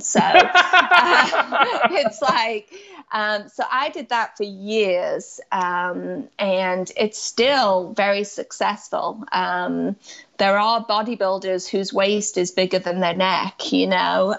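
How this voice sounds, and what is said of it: Mixed English, New England, Southern accent. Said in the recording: “my accent is kind of just mixed ... You can't even call it a mid-Atlantic accent ... It's not mid-Atlantic. So it's old England, New England, and then some southern pronunciations”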